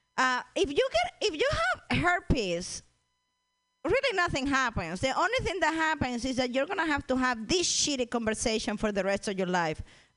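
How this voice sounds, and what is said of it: Speaks with a foreign accent. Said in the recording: “short accent women”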